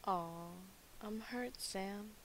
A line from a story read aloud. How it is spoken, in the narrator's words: purred